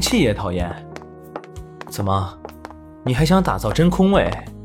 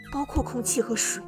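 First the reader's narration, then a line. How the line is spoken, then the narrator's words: Through gritted teeth. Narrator (Chinese): 圆圆咬牙道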